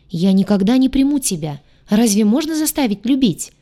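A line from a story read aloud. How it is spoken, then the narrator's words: Angry, helpless outcry. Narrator (Russian): выкрикнула, злясь на свое бессилие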